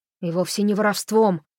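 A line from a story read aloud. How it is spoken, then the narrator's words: Angry objection. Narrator (Russian): сердито возразил Холли Лонгли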